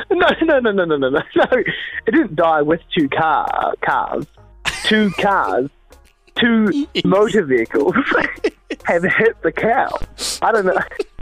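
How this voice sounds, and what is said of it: Thick New Zealand accent. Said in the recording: “my thick Kiwi accent”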